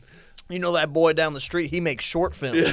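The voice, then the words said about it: Put-on Southern American accent. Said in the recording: “they have a southern accent. I always do southern. ... That's the default accent. The default accent of the dumb.”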